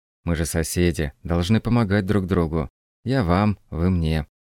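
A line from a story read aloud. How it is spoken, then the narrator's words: Ingratiating. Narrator (Russian): добавил вкрадчиво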